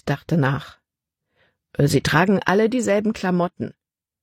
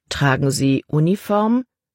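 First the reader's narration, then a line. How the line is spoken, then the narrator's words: Plain question. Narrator (German): fragte Caleb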